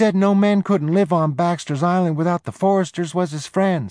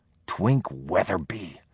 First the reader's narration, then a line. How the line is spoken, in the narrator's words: Jody spat